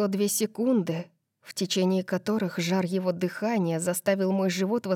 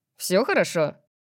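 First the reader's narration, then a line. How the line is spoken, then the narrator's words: Cheerful question. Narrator (Russian): Весело спросил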